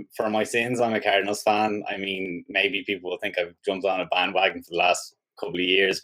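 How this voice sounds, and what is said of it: Irish accent. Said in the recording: “Where are you from in Ireland? I mean, I can't get that accent.”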